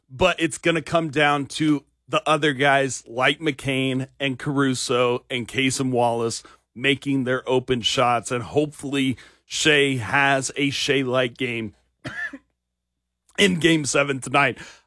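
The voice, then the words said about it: Hoarse, nearly lost voice. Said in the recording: “until I lose my voice like I have ... I have officially lost my voice.”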